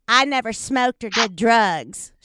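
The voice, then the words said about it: Imitated Southern accent. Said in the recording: “She's got a Southern accent.”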